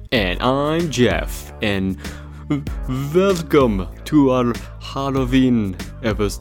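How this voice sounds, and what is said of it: Bad put-on vampire accent. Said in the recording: “That was really bad. That was terrible. I don't even know what kind of accent that was. ... it's not quite a Count Chocula and the Count from Sesame Street. ... it definitely was not what's-his-face from those sparkly vampire movies.”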